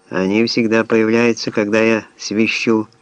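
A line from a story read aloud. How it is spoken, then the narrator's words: Neutral tone. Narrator (Russian): нейтральным тоном констатировал Шелдон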